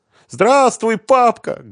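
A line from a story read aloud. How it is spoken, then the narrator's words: Loud girl's voice. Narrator (Russian): громко сказала девочка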